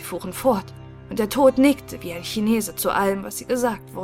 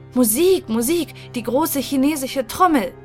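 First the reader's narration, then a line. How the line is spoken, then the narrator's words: Called out. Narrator (German): rief er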